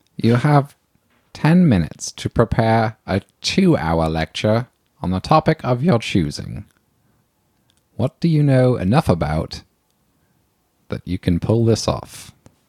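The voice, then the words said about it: Put-on accent. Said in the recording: “stop doing that accent”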